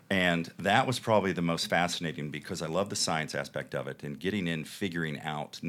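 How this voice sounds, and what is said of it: Speaks with a noticeable accent. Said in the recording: “with my accent, people would always say, why would you do a show on a coroner?”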